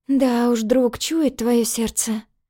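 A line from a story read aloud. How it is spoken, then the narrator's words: Mutter. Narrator (Russian): бормотала я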